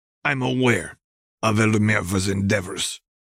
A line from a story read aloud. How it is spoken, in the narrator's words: the man said through clenched teeth